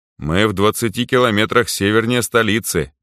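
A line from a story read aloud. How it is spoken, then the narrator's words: Knowing snort. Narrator (Russian): понятливо хмыкнул Гарри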